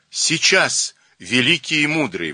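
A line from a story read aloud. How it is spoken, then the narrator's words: Forced cheerful exclamation. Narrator (Russian): воскликнул Берия, стараясь улыбнуться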